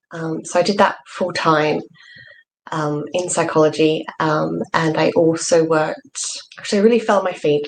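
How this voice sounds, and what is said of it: Australian accent. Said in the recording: “you can probably tell from my accent that I wasn't born here. I was born in Australia”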